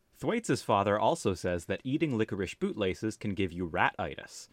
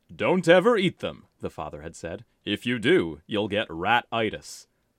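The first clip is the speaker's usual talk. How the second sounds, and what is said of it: Put-on father character voice. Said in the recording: “do a father voice”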